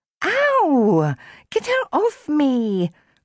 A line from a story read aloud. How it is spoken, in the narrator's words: Chloe squeaked